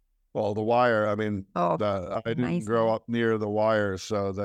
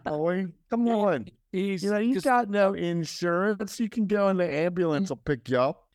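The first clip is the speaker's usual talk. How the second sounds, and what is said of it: Put-on Baltimore accent. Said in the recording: “in Baltimore, they talk a certain way ... he got that Baltimore accent”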